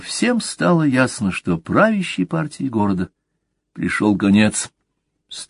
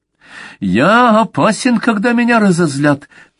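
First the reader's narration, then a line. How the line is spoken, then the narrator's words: Shrill squeaky singsong. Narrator (Russian): пропел пронзительно, писклявым голосом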